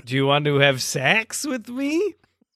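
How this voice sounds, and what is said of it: Weird Borat-style accent. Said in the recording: “weird accent ... Okay, Borat.”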